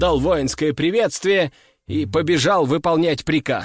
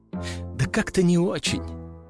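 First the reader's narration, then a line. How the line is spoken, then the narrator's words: Sighing young woman. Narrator (Russian): вздохнула девушка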